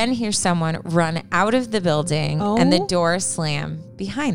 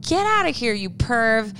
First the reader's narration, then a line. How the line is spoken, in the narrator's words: scream